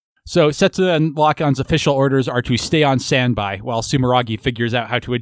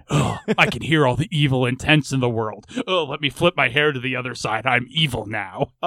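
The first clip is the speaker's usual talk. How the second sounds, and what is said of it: Imitates an evil character's voice. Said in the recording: “doing his Alleluia impression”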